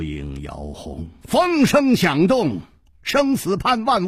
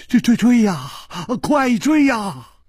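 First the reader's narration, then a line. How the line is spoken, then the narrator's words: Trembling, terrified voice. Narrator (Chinese): 金半花早已经是面无人色了，他颤声说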